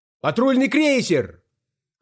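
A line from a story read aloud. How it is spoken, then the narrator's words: Shout from the hall. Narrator (Russian): крикнул кто-то в зале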